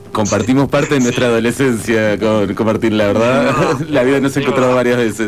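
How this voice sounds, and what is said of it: Distinctive radio announcer voice. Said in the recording (Spanish): “la voz de ... inconfundible ... Una voz de locutor, sí, qué suerte. Tiene voz de locutor”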